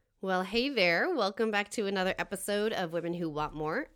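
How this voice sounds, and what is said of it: Slightly out of breath. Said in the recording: “I feel like I'm slightly out of breath ... walking up a hill in the cold”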